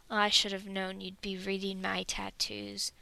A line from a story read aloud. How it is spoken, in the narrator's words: Dwalin rumbles